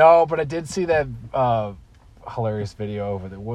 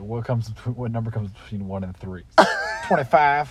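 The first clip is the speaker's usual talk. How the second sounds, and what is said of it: Imitates another person's voice. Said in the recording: “It's a good Stern impression.”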